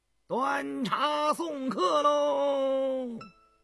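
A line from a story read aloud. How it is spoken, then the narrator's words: Loud chanting steward. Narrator (Chinese): 张廷玉的管家高声唱道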